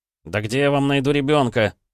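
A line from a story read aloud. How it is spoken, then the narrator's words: Yelled. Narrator (Russian): заорал я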